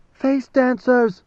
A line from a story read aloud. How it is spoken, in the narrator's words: screamed